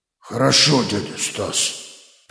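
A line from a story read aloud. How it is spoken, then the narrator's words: Frowning mumble. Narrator (Russian): пробурчал, не переставая хмуриться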